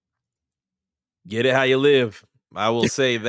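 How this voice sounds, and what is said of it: Usual voice. Nothing is said of it.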